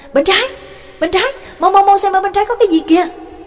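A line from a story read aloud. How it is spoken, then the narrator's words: Calling out. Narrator (Vietnamese): Trương Lộc ở phía sau cũng kêu lên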